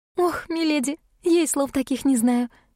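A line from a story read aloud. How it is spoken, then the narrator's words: Laughing. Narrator (Russian): засмеялась Шерри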